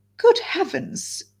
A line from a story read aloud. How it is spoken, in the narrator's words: she exclaimed